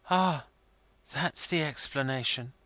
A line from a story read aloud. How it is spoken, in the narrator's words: he quietly remarked